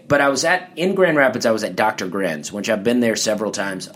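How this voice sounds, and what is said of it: Southern US accent. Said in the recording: “Michigan feels very Southern to me. And it's Southern, but with a different accent, so I'm a bit exotic in Michigan”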